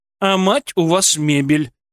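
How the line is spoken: Grumbling mother-in-law from behind. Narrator (Russian): проворчала за спиной теща

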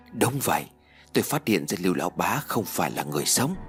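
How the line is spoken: Quiet, low voice. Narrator (Vietnamese): Lê Minh nhỏ giọng nói

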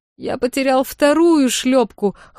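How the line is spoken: Whimpering. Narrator (Russian): хныкал Громедьер

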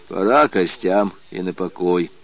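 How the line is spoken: Tired speech. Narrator (Russian): устало говорил воевода

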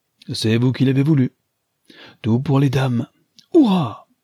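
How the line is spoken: Exclaimed. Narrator (French): s'écria-t-il

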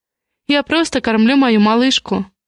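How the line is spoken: Calm, slightly displeased. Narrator (Russian): спокойно ответила, но в голосе прозвучала тень недовольства

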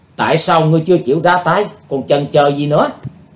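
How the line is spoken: Young woman's loud shout. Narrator (Vietnamese): cô gái áo trắng quát to lên

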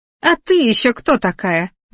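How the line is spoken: Shrieking. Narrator (Russian): взвизгнула девица

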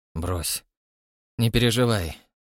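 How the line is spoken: Through gritted teeth. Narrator (Russian): сказал сквозь зубы

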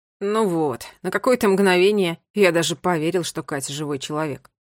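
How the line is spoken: Grumbling mutter. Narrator (Russian): пробурчал Ларри

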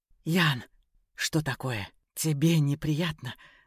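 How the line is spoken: Mocking whisper. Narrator (Russian): насмешливо прошептал он

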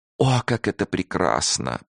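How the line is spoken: Moaning. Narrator (Russian): простонала Клара

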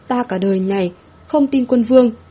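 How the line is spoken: Low growl. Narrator (Vietnamese): Hứa Thất An, gầm nhẹ

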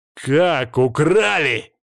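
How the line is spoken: Shouting in someone's face. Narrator (Russian): закричал я в лицо

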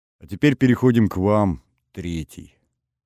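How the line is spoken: Dry, flat. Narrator (Russian): вновь сухо произнесла первая

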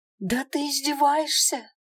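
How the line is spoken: Exclamation. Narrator (Russian): Воскликнула я

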